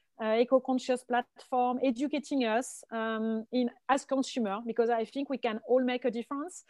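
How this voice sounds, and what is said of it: Strong French accent in English. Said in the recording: “French accent, living in LA, after San Francisco, but very French ... love the French accent”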